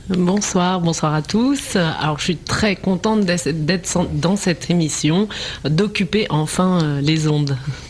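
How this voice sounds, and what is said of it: French accent from France. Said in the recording (French): “à son accent, elle est de nationalité française”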